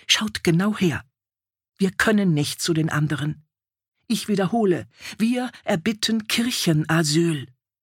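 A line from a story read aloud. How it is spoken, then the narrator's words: Quiet hiss. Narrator (German): zischte leise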